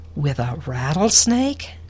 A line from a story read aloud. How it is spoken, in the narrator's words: gasped the grandma